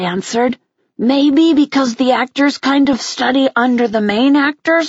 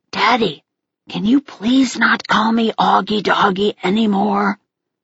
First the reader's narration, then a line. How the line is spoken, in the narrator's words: I whispered in Dad's ear